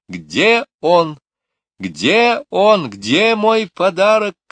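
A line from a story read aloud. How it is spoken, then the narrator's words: Shouting. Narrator (Russian): кричала она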